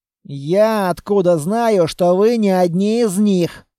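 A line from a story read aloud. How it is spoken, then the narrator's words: Through gritted teeth. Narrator (Russian): Сквозь зубы ответил лейтенант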